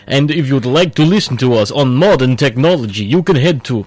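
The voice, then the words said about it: Bad put-on Russian accent. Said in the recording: “This is a terrible Russian accent. It really is, isn't it? ... It's horrible. It's really bad.”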